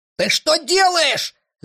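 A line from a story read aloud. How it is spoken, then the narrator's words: Indignant shout. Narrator (Russian): закричал на него второй альбатрос, от негодования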